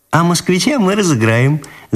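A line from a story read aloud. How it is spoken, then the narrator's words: Laughing girl. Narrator (Russian): засмеялась Ниночка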